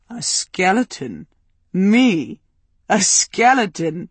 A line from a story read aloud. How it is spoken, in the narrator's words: He chuckled, delighted, and his entire body seemed to shake with mirth